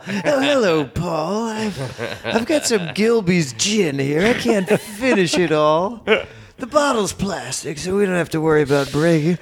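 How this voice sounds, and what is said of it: Weird put-on character voice. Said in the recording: “I get a weird voice like late at night”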